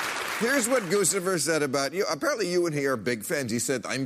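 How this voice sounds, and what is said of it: Usual voice. Nothing is said of it.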